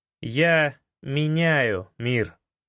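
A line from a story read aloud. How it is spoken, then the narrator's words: Slow deliberate emphasis. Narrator (Russian): проговорил я нарочито медленно, выделяя каждое слово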